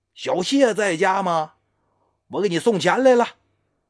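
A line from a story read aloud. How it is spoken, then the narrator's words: Calling from outside. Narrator (Chinese): 他就听见外边有人喊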